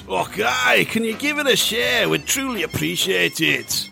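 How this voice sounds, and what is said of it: Bad put-on Scottish accent. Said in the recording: “Very awful Scottish accent there.”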